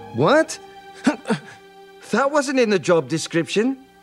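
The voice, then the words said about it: Shrek's Scottish accent. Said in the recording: “Mike Myers uses a Scottish accent to bring sharp comic timing and sensitivity to Shrek”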